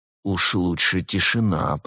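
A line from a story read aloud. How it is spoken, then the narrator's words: Moaning. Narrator (Russian): простонал Константин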